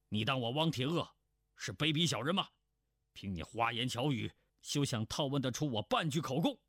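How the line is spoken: Stern, sharp. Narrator (Chinese): 那人厉声道

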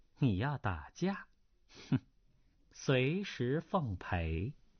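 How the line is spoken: Calm, faint smile. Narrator (Chinese): 叶二娘淡淡一笑说道

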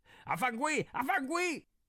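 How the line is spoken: Confident indignant shout. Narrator (Chinese): 倒也叫得理直气壮

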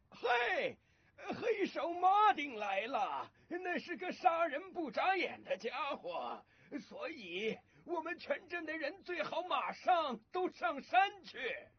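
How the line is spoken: Loud public shout. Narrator (Chinese): 大声地向全镇的人喊道

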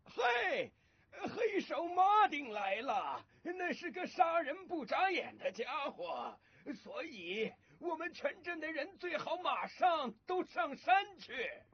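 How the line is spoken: Loud shout to crowd. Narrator (Chinese): 他大声地向全镇的人喊道

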